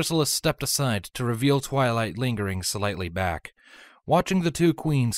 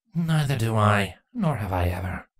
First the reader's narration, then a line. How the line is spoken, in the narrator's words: Chrysalis bitterly responded